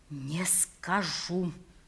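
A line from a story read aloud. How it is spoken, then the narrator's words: Very quiet whisper. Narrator (Russian): прошептал я еще тише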